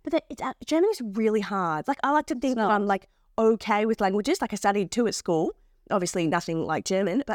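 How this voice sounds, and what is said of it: Australian accent. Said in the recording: “Gosh, you've got a real Aussie accent ... I speak Australian”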